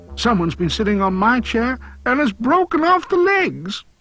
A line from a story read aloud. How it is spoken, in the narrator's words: the wee baby bear cried again and said